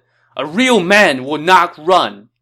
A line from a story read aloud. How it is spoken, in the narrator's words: shouted